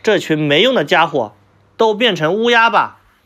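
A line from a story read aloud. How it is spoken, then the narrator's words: Furious shouting. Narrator (Chinese): 父亲气得大喊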